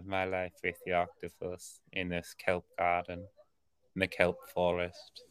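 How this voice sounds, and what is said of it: Calm soothing documentary narrator voice. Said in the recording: “the guy's voice is like so calming ... I'll do impressions of him ... You happen to do a pretty good impression.”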